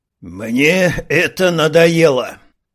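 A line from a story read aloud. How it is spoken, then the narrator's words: Pitiful exhale. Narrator (Russian): жалчно выдохнул черноволосый красавец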